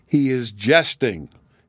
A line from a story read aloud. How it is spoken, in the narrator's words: he murmured to himself at last, in a tone of withering contempt